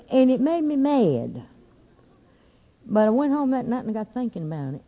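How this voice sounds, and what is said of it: Southern American accent. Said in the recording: “I never did lose my southern accent because I really didn't want to”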